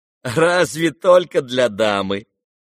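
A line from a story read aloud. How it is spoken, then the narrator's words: Laughing. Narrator (Russian): рассмеялся Ипполит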